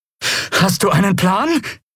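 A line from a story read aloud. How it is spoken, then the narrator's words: Breathless shout over noise. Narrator (German): rief Lien atemlos über den Lärm hinweg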